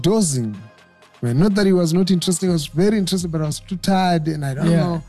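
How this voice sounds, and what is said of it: Non-American accent. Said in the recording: “this accent is not even American”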